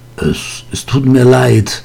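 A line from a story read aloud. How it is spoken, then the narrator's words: Stammering. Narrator (German): stotterte Vinzenz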